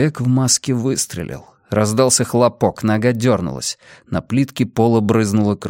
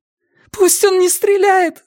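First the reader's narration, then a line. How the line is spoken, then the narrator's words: Shouting. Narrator (Russian): закричала она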